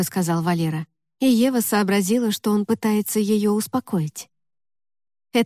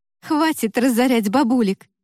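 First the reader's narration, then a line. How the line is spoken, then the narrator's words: Laughing. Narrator (Russian): Рассмеялась рядом с ней Лика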